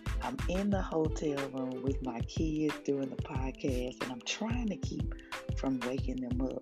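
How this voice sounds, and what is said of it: Quiet whisper. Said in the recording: “if it sounds like I'm whispering, that's because I am ... on a quiet whisper”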